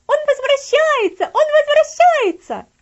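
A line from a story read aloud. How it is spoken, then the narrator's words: Shouting. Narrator (Russian): она закричала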